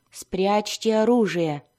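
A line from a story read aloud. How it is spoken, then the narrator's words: Grumbling. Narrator (Russian): проворчала она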